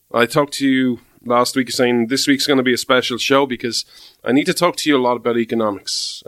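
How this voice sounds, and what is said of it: Irish accent. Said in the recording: “This Irish man stands with America ... you come for the accent”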